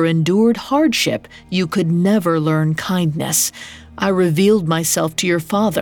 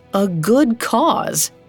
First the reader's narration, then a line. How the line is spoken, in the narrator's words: He chuckled